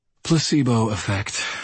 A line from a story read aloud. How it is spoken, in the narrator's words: I sighed